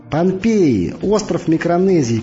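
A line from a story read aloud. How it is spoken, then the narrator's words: Shouting into phone. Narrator (Russian): кричала Виксу в трубку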